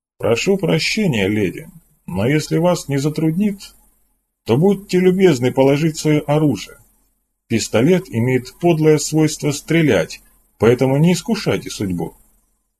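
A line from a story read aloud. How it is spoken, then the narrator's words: Calm tone. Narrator (Russian): Сен-Глиер спокойным тоном произнес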